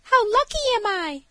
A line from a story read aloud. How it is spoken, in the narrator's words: cried she